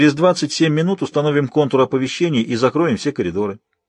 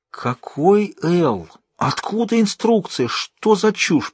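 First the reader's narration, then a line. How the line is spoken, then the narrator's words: Barely audible hiss. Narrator (Russian): прошипел директор, едва слышно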